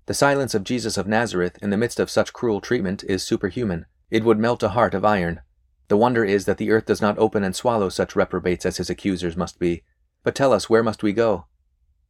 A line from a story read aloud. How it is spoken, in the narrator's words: they exclaimed